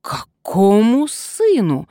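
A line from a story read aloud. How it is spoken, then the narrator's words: Indignant outburst. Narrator (Russian): возмущенно вскинулся Вольсингам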